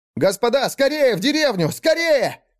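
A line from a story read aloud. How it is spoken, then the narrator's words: Shout. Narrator (Russian): закричал он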